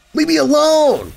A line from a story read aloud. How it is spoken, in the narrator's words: I screamed back at him